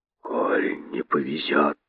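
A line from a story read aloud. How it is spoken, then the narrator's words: Hissed. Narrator (Russian): прошипел один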